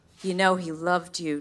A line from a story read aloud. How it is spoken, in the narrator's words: Nick said soothingly